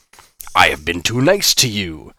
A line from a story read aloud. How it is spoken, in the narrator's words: the creature boomed